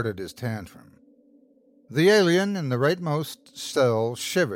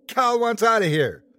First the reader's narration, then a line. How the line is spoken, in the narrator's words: the man who, at one point, shouted